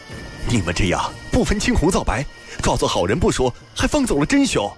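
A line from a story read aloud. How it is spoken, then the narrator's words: Angry. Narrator (Chinese): 王汉怒道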